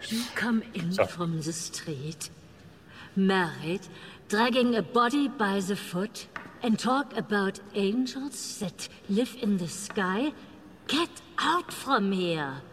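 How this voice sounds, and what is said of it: German accent. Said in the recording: “German accent.”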